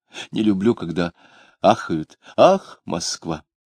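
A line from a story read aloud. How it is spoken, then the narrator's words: Sighing speech. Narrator (Russian): Он снова вздохнул, говоря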